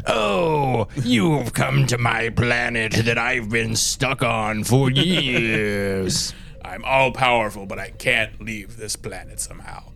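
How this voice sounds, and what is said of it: Hammy, throat-straining Armus voice. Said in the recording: “I love how hammy the voice actor is... Does a number on the throat trying to do that voice.”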